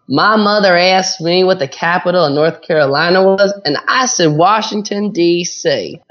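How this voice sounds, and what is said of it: Put-on Southern American accent. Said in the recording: “Southern. Let's go for it. ... Southern. Oh, here's a really good one.”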